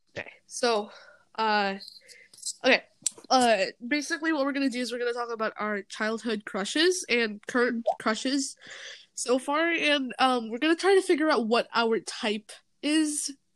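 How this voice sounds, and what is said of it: Slightly weird post-sneeze voice. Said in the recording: “I still has that little sneeze, you know, voice thing that happens to you when you're like done sneezing. ... my voice is gonna be a bit weird from now on.”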